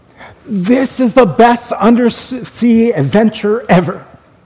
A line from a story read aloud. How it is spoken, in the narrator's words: Sammy happily exclaimed